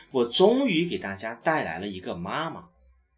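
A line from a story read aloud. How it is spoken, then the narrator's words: Loud. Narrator (Chinese): 他大声地说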